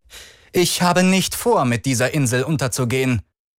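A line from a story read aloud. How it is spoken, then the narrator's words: Shouted over rumbling. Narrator (German): rief die Baronin über das Beben hinweg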